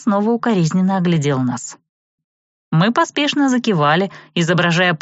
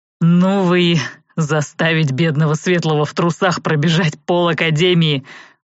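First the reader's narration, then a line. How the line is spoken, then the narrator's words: Breathless exhale. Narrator (Russian): выдохнул Анхайлик, чуть отдышавшись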